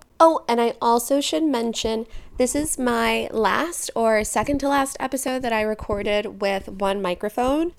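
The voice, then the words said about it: Creaky vocal fry voice. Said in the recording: “enough of my vocal fry ... You should be getting all of my vocal fry.”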